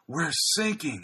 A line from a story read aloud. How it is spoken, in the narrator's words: Agatha gasped